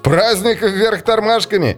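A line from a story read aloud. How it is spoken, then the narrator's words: Laughing. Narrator (Russian): сказал он, смеясь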